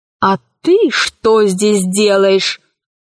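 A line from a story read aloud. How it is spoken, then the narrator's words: Menacing question. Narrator (Russian): грозно спросила Кора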